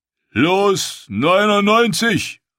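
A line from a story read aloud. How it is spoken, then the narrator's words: Auctioneer calling out. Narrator (German): rief der Auktionator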